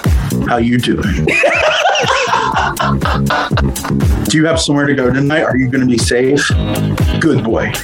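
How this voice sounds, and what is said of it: Put-on daddy voice. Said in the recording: “when I use my daddy voice ... do your daddy voice again”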